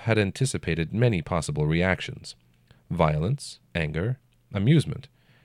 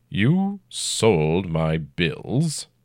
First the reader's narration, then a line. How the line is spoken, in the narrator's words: he growled